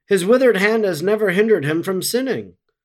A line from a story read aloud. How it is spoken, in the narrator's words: The Pharisees, who scorned, cried out